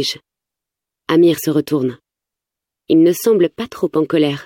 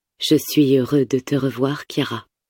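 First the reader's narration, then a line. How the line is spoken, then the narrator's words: Plain. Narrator (French): dit Fatih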